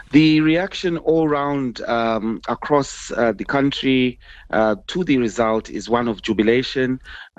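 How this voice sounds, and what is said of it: Slightly hoarse voice. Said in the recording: “As you can probably hear, my voice is slightly hoarse because of that very fact.”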